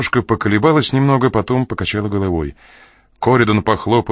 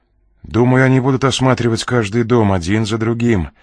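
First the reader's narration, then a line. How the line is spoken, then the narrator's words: Plain. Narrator (Russian): ответил Ренли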